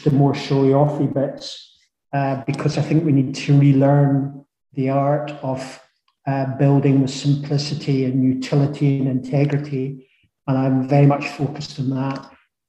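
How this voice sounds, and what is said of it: Lush regional accent. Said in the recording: “what a lush accent”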